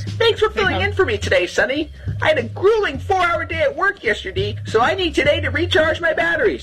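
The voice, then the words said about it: Distinctive accent, possibly Portland Maine. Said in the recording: “has a one-of-a-kind accent. I guess that's a Portland, Maine accent, I guess. I'm not even sure... Maybe it's that accent you just get when you work around people from everywhere”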